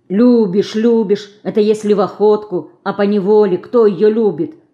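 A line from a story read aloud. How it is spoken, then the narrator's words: Grumbling. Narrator (Russian): заворчала Динка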